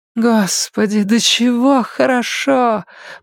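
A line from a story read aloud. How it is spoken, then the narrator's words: Moaning. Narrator (Russian): простонала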